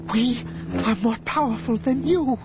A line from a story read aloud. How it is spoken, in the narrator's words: Dorskedi One gasped